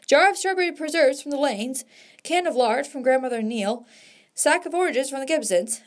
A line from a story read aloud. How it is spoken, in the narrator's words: we called out